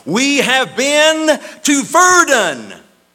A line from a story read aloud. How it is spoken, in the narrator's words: as one voice they cried